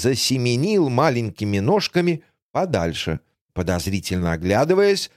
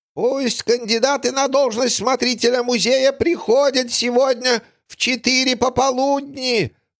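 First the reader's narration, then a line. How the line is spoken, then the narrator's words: Shouted from afar. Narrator (Russian): прокричал с безопасного расстояния издалека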